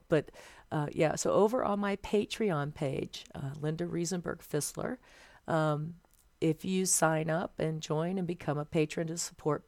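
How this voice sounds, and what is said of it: Strained, fading voice. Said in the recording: “my voice is starting to go out”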